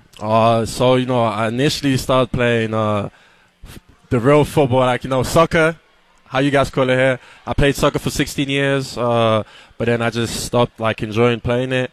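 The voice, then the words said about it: British London accent. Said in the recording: “your accent, not accustomed to hearing a British accent ... How does a Londoner”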